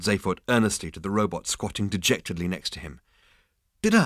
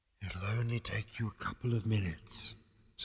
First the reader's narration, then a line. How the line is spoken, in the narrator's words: said the voice very faintly